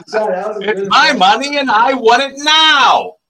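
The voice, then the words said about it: Impression of TV commercial pitchman. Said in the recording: “you sounded just like them. That's like JG Jumper. ... That was a good impression.”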